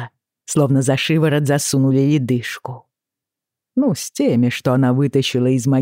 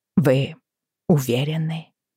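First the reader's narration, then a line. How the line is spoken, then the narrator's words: Dry-lipped strained whisper. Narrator (Russian): прошептала я, с трудом шевеля пересохшими губами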